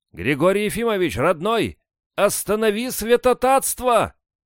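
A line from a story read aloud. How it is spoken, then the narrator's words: Shouted reply. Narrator (Russian): Кто-то крикнул в ответ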